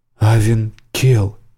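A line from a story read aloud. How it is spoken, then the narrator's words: Woman breathing out. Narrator (Russian): выдохнула женщина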